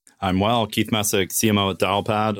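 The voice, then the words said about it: Deep smooth radio announcer voice. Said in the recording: “I'm working on my radio voice.”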